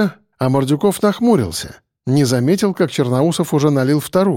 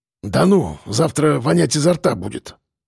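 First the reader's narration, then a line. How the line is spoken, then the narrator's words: Grumbling. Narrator (Russian): пробурчал Мордюков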